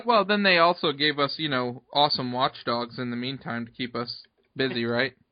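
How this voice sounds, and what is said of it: Sarcastic tone. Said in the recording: “being sarcastic? ... if I'm sarcastic or not”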